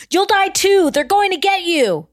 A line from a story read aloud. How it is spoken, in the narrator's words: Jennifer shouting